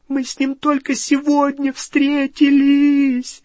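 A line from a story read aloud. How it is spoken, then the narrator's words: Sobbing. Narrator (Russian): рыдала Гермиона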